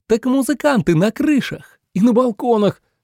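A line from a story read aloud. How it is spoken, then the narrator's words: Exclaimed. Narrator (Russian): воскликнул Митя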